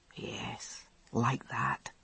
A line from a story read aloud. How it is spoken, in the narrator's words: he said softly